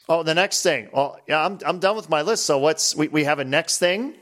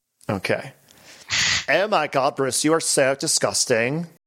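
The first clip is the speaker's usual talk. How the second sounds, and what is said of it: Valley Girl voice. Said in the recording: “I love doing a Valley Girl voice.”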